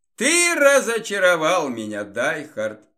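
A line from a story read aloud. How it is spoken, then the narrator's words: Cheerful smiling tone. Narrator (Russian): весело улыбнулся Красовский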